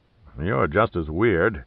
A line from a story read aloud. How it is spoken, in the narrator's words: Cabrillo growled at Pitt